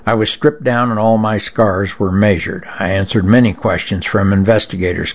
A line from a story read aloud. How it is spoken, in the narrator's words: Capers said